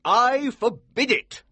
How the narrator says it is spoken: the Colonel said angrily

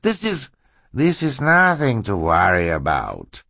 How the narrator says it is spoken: Stefano interrupted smoothly

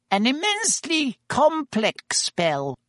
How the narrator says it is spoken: he said squeakily

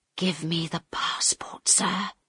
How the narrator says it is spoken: Harold whispered very quietly

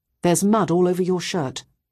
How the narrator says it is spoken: I said quite sternly

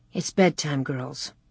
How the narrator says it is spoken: Ma said quietly

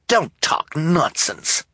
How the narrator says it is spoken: Esme said crossly

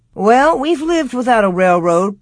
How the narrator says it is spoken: Pa answered cheerfully

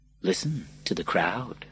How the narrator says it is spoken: he said

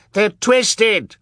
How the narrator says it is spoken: shrieked Colette

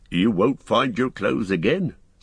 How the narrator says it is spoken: said Tom, bounding down from the mound, and laughing as he danced round them in the sunlight

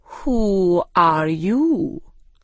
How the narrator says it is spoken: it said slowly

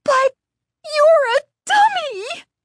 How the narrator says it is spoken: she squealed

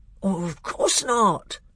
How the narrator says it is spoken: said the bear in a very shocked voice

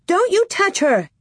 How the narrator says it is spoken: Nellie screeched

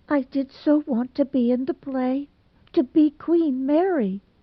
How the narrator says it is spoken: she sobbed

